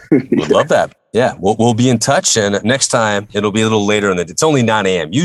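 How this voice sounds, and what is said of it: Usual voice. Nothing is said of it.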